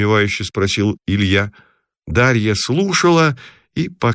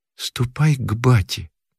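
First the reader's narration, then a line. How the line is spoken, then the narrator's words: Quiet reply. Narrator (Russian): тихо ответила Мотька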